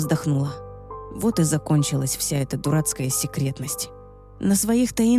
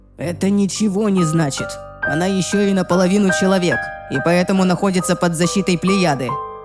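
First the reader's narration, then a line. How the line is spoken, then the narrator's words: Growled reply. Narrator (Russian): прорычал в ответ Райан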